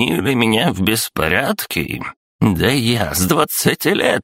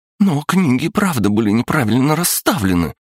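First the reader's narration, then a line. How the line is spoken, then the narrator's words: Exclaiming. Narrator (Russian): воскликнула Настя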